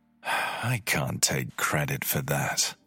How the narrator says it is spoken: replied before sighing

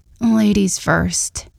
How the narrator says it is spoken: said through gritted teeth

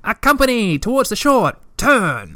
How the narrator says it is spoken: she cried

